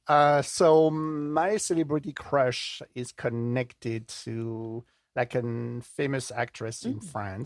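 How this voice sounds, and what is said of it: Non-native accent. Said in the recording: “my accent is not from the German shore... I have a little bit of French DNA”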